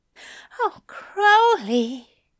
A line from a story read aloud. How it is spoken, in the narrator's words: Aziraphale groaned